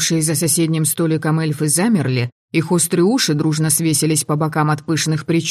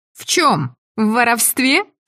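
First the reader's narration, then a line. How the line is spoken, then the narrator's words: Loud giggle. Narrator (Russian): слишком громко хихикнула я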